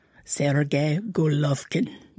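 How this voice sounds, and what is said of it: Put-on accent pronouncing a name. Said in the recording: “I like your accent.”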